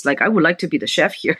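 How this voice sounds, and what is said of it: Put-on deep French accent. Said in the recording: “with a deep French accent.”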